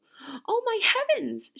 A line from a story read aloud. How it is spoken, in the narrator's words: she cried